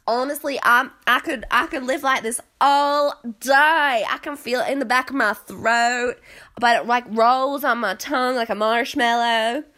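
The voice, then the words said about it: Put-on American Southern accent. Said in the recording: “Southern, this is my favorite accent to fall into”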